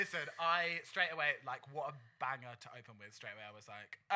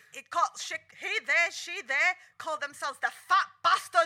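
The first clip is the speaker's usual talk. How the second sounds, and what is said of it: Attempted Scottish accent. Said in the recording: “that was supposed to be a Scottish accent ... Better than RuPaul's”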